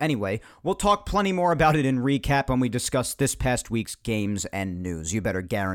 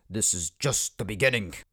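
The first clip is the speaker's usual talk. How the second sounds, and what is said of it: Count Dooku impression. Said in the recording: “my Count Dooku impression”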